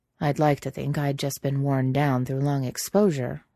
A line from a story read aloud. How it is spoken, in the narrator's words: Jack says dryly